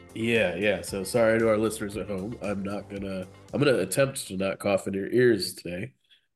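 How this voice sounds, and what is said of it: Congested, sick-sounding voice. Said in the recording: “You sound a little congested.”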